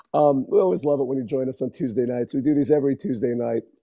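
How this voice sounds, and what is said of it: Strained, worn-out voice. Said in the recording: “my voice is melting down”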